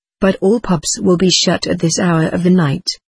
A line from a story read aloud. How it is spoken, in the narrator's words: I said